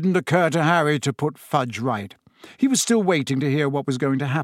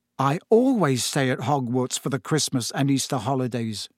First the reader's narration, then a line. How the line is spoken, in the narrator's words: he said